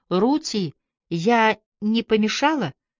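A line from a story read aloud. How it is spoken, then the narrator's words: Trembling voice. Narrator (Russian): трепещущий голос произнес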